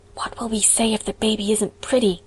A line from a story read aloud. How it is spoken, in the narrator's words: whispered Diana in trepidation